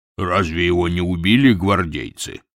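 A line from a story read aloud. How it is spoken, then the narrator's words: Asked in a deep bass. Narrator (Russian): спросил другой кучер тоже басом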